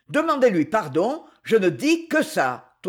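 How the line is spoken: Thundering. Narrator (French): tonna Luc

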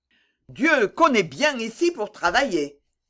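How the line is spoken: Exclaimed. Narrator (French): s'écriait le poète

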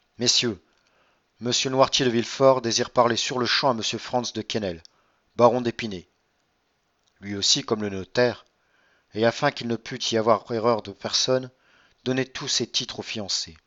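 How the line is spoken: Strangely firm servant's voice. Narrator (French): dit-il d'une voix étrangement ferme pour un serviteur qui parle à ses maîtres, dans une circonstance si solennelle

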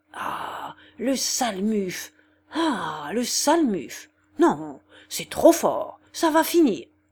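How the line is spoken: Stammering threats. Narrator (French): en bégayant des menaces atroces

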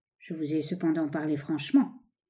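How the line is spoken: Dark menacing murmur. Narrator (French): murmura Baruch d'un air sombre et menaçant

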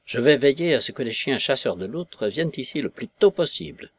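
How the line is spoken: Fierce tone. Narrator (French): fit Egbert d'un ton féroce

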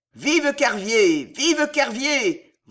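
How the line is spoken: Frenzied crowd yelling. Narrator (French): vociférait la foule frénétique

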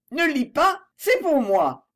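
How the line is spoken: Exclaiming. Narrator (French): s'écria-t-elle

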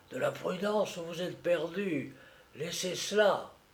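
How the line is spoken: Low whisper. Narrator (French): à mi-voix, il souffla

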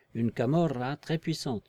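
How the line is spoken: Murmured. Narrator (French): murmura-t-il

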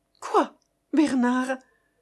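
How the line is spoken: Breathless, defensive. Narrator (French): fit-elle, déjà sur une défensive haletante

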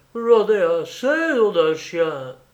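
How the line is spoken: Groaning. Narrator (French): Il gémit

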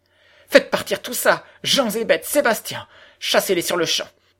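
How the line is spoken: Exclaimed. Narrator (French): s'écria-t-elle

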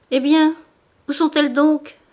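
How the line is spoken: Exclamation. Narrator (French): s'écria Madame Bourdelais

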